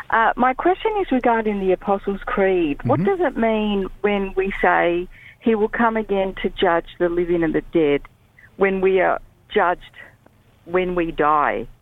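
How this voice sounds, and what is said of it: Australian accent. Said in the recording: “I can tell you're in Australia. ... I can tell because of your accent.”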